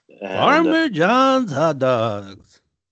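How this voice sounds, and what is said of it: Imitates another person's voice. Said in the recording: “That's my Ben Scully impression.”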